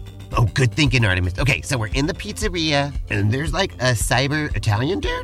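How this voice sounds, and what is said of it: Usual voice. Nothing is said of it.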